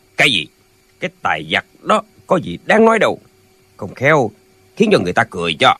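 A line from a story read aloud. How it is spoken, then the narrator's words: Cold voice. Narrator (Vietnamese): Hắc Bạch Tử lạnh lùng nói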